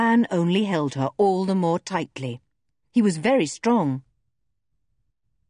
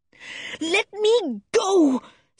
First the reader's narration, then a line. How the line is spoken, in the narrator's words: said Jo fiercely